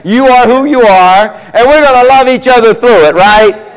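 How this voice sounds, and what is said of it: Southern American accent. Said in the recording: “I got my southern accent.”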